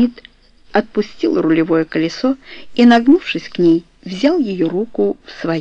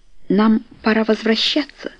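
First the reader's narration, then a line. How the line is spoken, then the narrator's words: Uncertain. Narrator (Russian): сказала неуверенно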